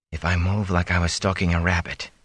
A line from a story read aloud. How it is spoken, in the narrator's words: he whispered to himself